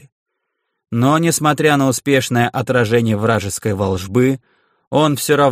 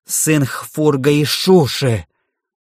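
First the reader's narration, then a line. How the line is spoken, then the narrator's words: Roaring. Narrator (Russian): взревел Льер Витор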